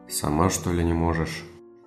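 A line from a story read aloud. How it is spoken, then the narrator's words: Displeased grumble. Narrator (Russian): недовольно буркнул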